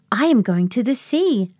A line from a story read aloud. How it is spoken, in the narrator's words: Luna exclaimed